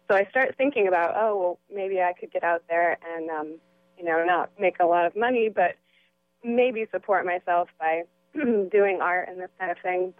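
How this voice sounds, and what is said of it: Hoarse, fading voice. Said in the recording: “I'm losing my voice.”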